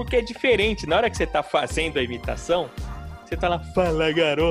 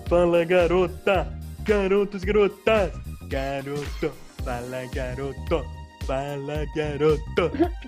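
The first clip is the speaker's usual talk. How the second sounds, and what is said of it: Imitates another person's voice. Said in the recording (Portuguese): “treinar e imitar o Serginho Groisman, que tá ruim”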